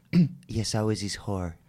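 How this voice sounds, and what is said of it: Imitates another person's voice. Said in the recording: “my Shay impression”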